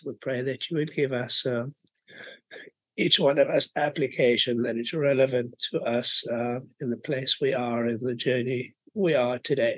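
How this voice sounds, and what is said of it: Voice in poor shape. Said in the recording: “my voice is not so good today.”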